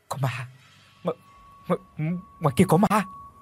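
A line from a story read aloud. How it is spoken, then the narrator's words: Trembling stammer. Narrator (Vietnamese): run giọng, mà lắp bắp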